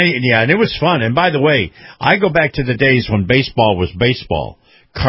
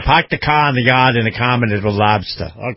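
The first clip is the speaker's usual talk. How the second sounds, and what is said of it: Put-on Boston accent. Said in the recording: “Beantown ... you gotta say it right ... Enough of my accent.”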